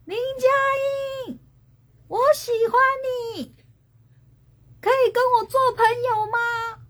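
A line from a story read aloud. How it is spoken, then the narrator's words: Calling from behind. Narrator (Chinese): 有人在后面喊我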